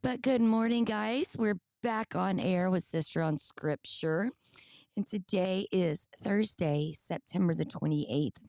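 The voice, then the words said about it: Scratchy, partly lost voice. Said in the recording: “I'm still a little scratchy... I lost most of my voice”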